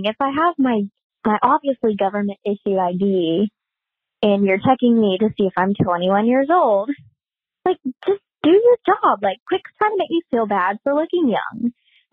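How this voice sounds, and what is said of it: Cute, sweet-sounding accent. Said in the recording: “you have the cutest little accent ... She sounds just like so sweet”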